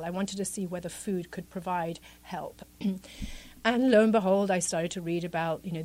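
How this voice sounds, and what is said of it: British accent. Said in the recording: “I'm Italian. I grew up in the UK, as you can probably tell from the accent.”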